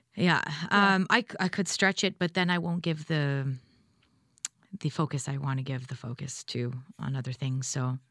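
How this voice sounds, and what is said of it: Unusually deep voice. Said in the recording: “my deep voice right now. But I can't say it'll stay longer than a few days”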